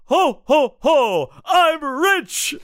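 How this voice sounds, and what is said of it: Jolly Santa character voice. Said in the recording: “good Santigold impression”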